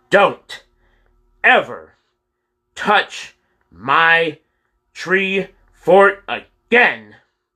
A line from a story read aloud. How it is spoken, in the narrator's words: shouted one word at a time